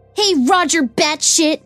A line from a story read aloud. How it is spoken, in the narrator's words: someone yells